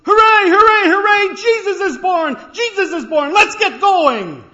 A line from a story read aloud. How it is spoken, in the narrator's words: this four-year-old came down the aisle and shouted at the top of his lungs